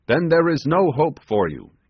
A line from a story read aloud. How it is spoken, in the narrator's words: exclaimed the sailor